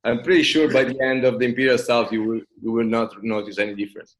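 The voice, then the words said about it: Italian accent. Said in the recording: “my accent, probably you figured out that uh, I'm Italian.”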